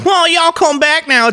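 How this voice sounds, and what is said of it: Mock Southern drawl. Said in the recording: “people from fucking Indiana that have that drawl ... Southern ... have the drawl”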